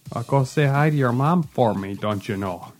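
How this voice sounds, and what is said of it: Put-on Midwestern Wisconsin accent. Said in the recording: “Midwestern Wisconsin accent ... we can really drop it in on you quick ... Yeah, it's it's right there.”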